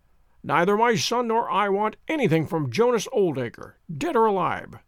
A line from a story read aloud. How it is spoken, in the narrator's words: she cried, with a proper spirit